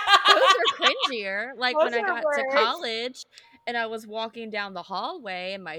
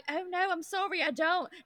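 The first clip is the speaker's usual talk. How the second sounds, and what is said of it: Put-on British accent. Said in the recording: “respond in a British accent, even though I'm not British”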